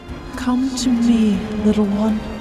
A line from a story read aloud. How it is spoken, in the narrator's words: Mother cries in Albiz